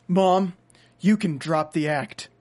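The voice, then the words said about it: Dramatic voice. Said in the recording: “put on my dramatic voice.”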